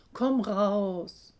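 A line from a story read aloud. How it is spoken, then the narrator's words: Called out. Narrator (German): Er ruft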